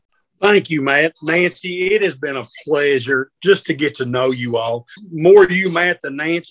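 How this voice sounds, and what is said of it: Strong Southern American accent. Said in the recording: “is extremely Southern, which you will hear from his voice.”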